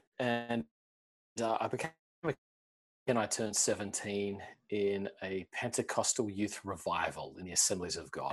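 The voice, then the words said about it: Slight Australian accent. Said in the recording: “You got a bit of an accent ... I grew up in Australia”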